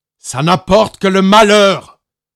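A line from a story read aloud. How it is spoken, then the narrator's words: Roared. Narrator (French): rugit Magellan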